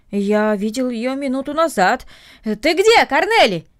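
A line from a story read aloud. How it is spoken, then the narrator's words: Shouted toward the house. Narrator (Russian): крикнул он в сторону дома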